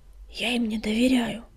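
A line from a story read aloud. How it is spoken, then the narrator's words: Whisper. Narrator (Russian): прошептал он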